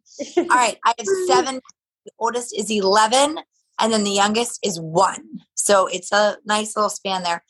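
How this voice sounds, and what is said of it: Unusual-sounding voice, not her normal. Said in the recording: “my voice is weird, but this is not the way I normally sound”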